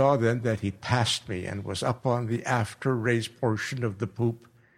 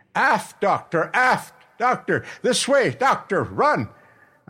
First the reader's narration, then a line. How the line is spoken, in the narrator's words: the captain was shouting to me